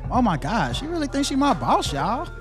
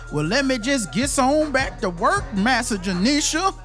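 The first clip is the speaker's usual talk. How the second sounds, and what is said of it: Exaggerated put-on old Southern dialect. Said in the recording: “That slave talking accent”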